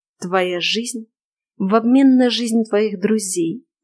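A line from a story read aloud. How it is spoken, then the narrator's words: Persuasive whisper. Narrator (Russian): продолжил уговаривающе шептать Шерион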